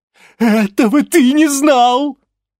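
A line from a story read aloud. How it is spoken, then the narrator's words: Giggling. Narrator (Russian): хихикнула Локобал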